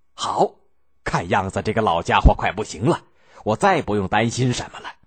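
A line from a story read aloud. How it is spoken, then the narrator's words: Gleeful laughter. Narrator (Chinese): 曹爽听得满心欢喜，笑得合不拢嘴，拍手说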